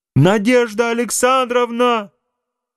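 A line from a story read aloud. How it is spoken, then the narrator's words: Sudden wild scream. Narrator (Russian): Вдруг закричал Адуев каким-то диким голосом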